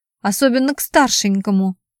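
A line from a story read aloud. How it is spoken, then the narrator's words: Snapping back. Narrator (Russian): огрызнулся Брутич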